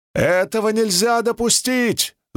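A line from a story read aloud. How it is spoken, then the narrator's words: Yelling. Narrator (Russian): завопил он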